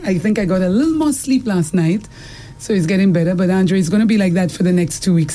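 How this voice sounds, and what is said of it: Strained voice, not fully recovered. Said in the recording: “my voice is not back yet ... It sounded a little better”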